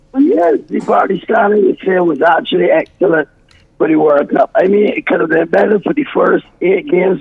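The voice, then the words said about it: Hoarse voice. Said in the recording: “I'm still hoarse.”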